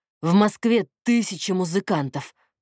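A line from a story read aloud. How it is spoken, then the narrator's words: Through gritted teeth. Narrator (Russian): процедил Платон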